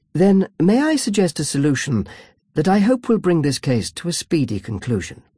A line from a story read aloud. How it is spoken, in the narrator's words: smiled sweetly at the judge